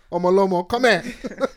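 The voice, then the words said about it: Put-on Yoruba accent. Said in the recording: “embrace the Yoruba accent as well”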